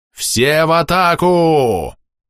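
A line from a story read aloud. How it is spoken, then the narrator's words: Booming command from behind. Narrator (Russian): Прогремел позади меня зычный приказ воина в шлеме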